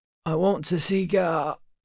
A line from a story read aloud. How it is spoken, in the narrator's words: he croaked